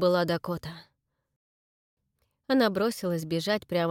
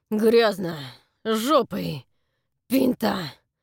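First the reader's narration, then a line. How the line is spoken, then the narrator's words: Through gritted teeth. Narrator (Russian): процедил Фрэнк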